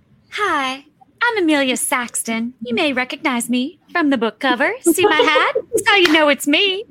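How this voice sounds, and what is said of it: Uneven put-on Southern accent. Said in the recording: “my Southern accent is terribly uneven tonight”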